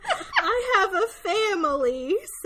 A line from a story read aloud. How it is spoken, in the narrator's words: Selden shouts at them, trying to reason with the men